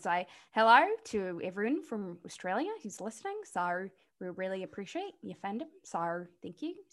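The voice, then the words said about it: Put-on New Zealand accent. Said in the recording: “my New Zealand accent ... That's pretty good. That was pretty good. ... It's a bad Australian, but a good New Zealand accent”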